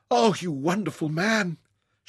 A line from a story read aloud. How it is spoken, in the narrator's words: gasped